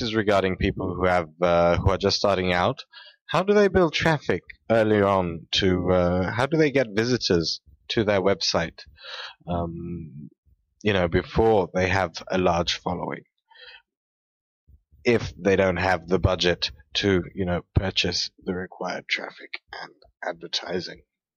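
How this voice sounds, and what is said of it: Noticeable accent. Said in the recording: “I really enjoyed your accent there. I don't know where you're from”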